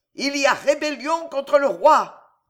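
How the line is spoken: Bellowing sergeant. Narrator (French): vociférait le sergent

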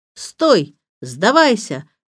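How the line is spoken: Shouted. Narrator (Russian): крикнул Сирил

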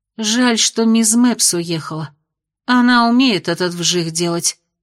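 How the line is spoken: Sighing woman. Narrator (Russian): вздохнула она

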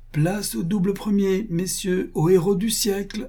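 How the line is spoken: Exclaimed. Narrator (French): s'écria-t-il

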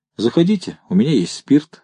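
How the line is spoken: Plain. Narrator (Russian): сказал Бах

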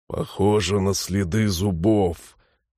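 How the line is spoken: Husky remark. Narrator (Russian): сипло заметил Ронг

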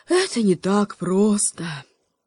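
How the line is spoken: Raven sighing. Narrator (Russian): вздохнул ворон

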